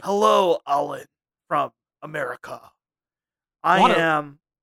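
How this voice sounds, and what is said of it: British actor faking American accent. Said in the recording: “sound like a British actor doing an American accent in a weird uh, way”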